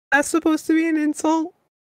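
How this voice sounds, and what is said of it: Speaking in a falsetto. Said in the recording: “Mr. Falsetto ... how you're talking in a falsetto ... Emphasis on false.”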